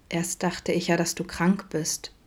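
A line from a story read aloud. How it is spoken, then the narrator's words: Quiet speculation. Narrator (German): mutmaßte Vincent leise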